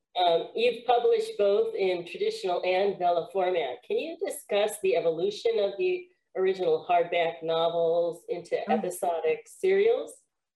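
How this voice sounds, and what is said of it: Slightly congested voice from cold. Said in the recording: “I have a little cold”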